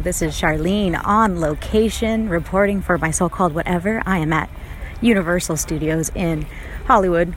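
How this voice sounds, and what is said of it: Polished radio-announcer voice. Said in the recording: “has such a good like radio voice.”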